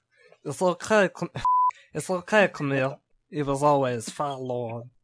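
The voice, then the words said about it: Meatwad cartoon voice impression, garbled. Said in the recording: “in meat wad voice ... It sounds like you're having a stroke”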